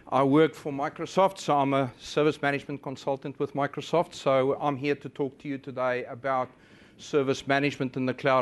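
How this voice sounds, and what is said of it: Unusual foreign-sounding accent. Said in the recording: “I have a very strange accent,”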